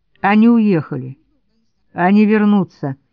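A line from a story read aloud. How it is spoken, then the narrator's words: Gloomy objection. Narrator (Russian): мрачно возразил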